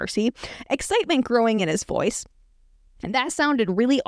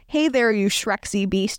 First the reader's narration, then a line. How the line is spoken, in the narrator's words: it said